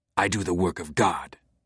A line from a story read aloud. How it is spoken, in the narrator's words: Silas spat back, through the pain in his jaw